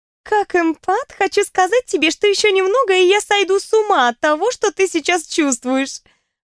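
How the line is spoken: Laughing. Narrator (Russian): Рассмеялась она

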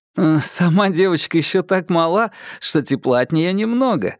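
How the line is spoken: Laughing. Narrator (Russian): рассмеялся Киплинг

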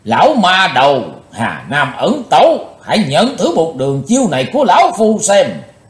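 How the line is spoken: Heavy, deep shout. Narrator (Vietnamese): Nam Tài Giả Hiệu nặng trầm quát

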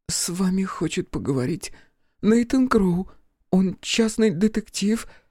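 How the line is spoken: Timid babble. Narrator (Russian): пролепетала Энни

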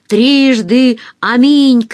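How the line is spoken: Woman shouting. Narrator (Russian): крикнула толстая подруга Оксаны

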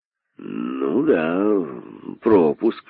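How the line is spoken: Agreeing with hidden glee. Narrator (Russian): согласился начальник охраны, тихо ликуя про себя

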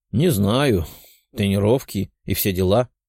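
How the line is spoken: Sad. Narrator (Russian): грустно сказала Лиза

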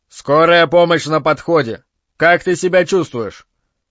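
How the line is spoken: Authoritative voice, patrolman. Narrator (Russian): дорожный патрульный и представительным голосом заявил

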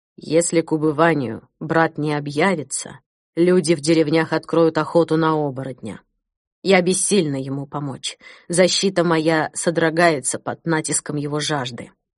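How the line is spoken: Quiet. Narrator (Russian): тихо сказала

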